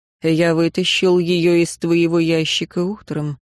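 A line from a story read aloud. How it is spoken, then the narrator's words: Calm reply. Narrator (Russian): спокойно ответил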